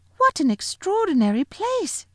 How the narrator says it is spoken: cried Lucy

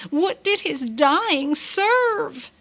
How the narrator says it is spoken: shouted

